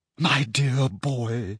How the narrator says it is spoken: she said in a very carrying whisper

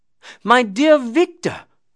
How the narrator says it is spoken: cried he

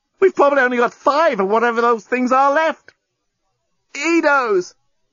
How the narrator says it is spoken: The journalist tried not to yell out with the pain of his wound

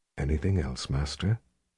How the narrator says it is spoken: the Sliff whispered intimately

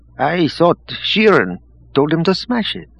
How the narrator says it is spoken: someone at the back said in a puzzled tone

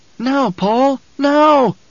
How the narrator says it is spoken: Jessica screamed it in her mind

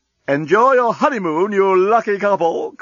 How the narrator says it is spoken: called the doorbot cheerfully

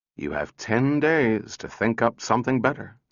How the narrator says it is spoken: said Powell wearily

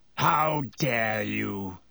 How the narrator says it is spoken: he growled, sounding suddenly like the bear-sized dog he had been

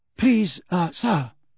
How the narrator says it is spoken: said Parvati breathlessly

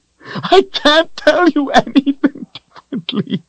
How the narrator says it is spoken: Richard cried

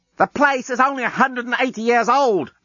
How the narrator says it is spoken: Lucy shouted back down

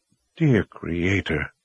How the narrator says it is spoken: Warren whispered to himself

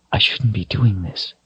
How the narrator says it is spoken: she whispered

